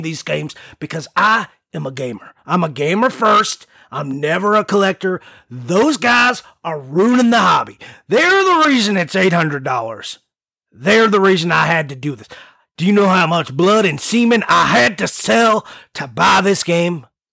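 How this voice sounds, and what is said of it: Inconsistent put-on Texan accent. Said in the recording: “like from Texas... he's from somewhere. I, that's not like a real accent. And I fell in and out of it a few times. Wasn't yeah, solid.”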